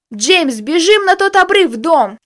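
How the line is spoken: Shouting. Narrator (Russian): закричал мой боевой товарищ

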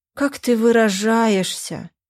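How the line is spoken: Sad sigh, mother. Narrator (Russian): печально вздохнула мама

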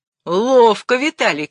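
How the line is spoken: Shouted. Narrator (Russian): крикнул ему Обручев

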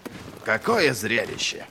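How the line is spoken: Muttering. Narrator (Russian): пробормотал Берр

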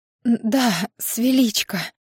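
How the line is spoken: Hoarse. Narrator (Russian): хрипло отвечает ей Ира

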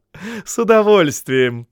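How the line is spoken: Laughing. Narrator (Russian): смеясь отозвался начальник стражи

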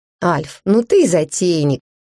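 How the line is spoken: Laughing. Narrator (Russian): Я рассмеялась, настолько комично это выглядело

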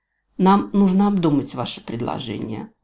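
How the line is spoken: Sighing. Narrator (Russian): вздохнула руководительница

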